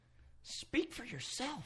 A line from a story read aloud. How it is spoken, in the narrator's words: I muttered